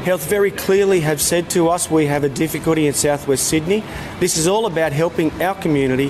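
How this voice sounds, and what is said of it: Strong Anglo Australian accent. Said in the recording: “the white policeman with the super Anglo Aussie accent”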